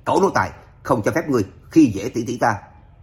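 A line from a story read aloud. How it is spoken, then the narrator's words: Indignant, emboldened shout. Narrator (Vietnamese): Lạc Vân Hải nhìn thấy tỷ tỷ chịu nhục, không biết lấy dũng khí từ đâu ra, hét lớn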